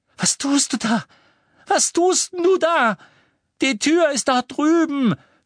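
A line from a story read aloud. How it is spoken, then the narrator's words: Shouted. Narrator (German): schrie Malfoy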